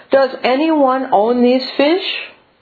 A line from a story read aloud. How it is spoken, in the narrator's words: the otter called out three times